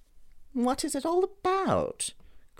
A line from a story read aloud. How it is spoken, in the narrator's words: cried Dorian, in his petulant way